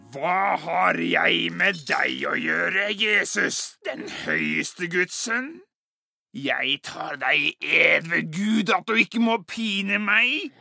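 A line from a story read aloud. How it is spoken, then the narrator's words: Crying out loudly. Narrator (Norwegian): da han hadde ropt med høy røst, sa han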